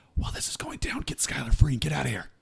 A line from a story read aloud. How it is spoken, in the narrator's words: whisper in his ear